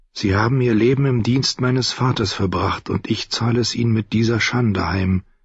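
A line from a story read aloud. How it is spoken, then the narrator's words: Tired inner thought. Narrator (German): dachte müde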